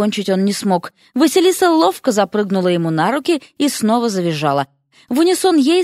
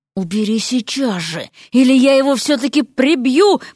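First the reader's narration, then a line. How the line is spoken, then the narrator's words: Hiss. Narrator (Russian): прошипел Эрик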